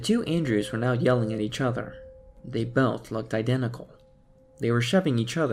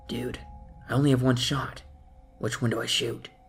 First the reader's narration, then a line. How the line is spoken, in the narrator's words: said, panicking